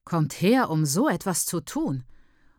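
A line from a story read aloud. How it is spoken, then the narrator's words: Widow muttering. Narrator (German): murmelt die Witwe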